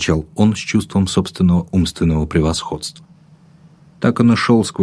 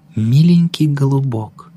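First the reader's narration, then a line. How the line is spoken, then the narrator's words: Cooing. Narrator (Russian): заворковало письмо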